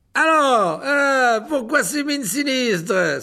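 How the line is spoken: Beaming exclamation. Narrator (French): s'écria-t-il en adressant à la classe un sourire rayonnant

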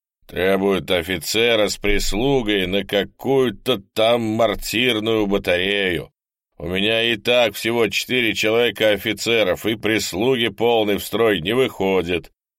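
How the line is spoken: Grumbling commander. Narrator (Russian): ворчал батарейный командир

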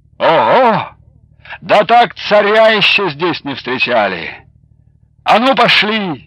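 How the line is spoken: Cheerful exclamation. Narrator (Russian): Платов уже бодро воскликнул

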